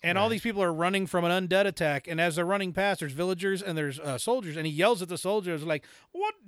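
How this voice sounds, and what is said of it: Usual voice. Nothing is said of it.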